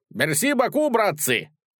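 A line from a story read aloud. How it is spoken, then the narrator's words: Army shouting thrice. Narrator (Russian): войско троекратно закричало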